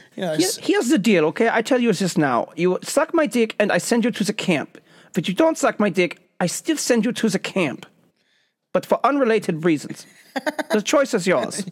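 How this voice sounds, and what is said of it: Put-on German accent. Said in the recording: “I can't do a great German accent. Sometimes I can, sometimes it's horrible.”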